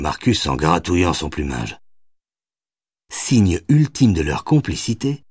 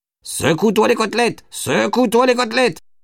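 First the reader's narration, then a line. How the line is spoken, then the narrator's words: Screeching parrot. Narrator (French): hurla le perroquet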